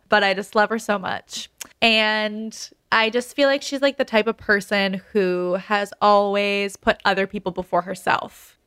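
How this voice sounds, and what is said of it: Emotional, tearful voice. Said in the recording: “I'm going to get emotional ... I'm getting emotional ... you're getting emotional.”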